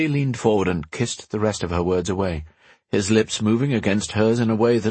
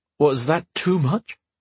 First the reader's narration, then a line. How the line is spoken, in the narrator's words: he gasped, afraid he'd been too bold